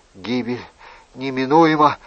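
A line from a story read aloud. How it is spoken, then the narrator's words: Whisper. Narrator (Russian): прошептал Анри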